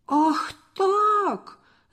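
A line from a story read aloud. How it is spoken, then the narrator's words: Shouted. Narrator (Russian): закричал Борис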